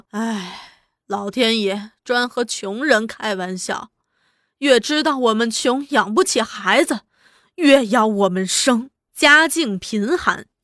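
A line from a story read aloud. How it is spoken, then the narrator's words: Sighing lament. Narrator (Chinese): 他常常叹气说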